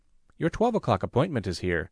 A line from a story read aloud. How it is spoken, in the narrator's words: she reported in a clipped, professional tone